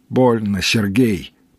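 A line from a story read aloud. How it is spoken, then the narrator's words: Moaned. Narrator (Russian): простонал напарник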